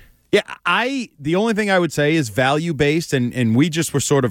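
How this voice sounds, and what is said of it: Usual voice. Nothing is said of it.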